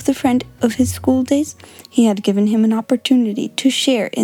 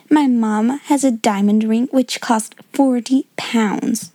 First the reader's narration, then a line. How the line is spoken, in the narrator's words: she said